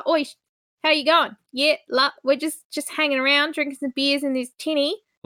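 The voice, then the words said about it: Exaggerated put-on Australian accent. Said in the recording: “it's very Australian. It's almost too Australian ... the accent gets put on a little thick, so they do really ham it up”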